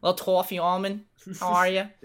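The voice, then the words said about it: Weak put-on Boston accent. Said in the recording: “Is that your Boston accent? ... Yeah, it's not great, but I tried.”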